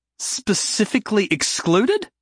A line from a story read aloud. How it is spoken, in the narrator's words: Jason said, his voice ramping up